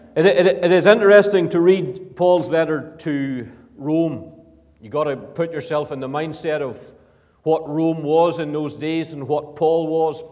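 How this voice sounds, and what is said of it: Ulster Northern Irish accent. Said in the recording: “I come from Ballymoney, been living in Edinburgh now for 4.5 years or so, but I hope to hold on to the Ulster accent”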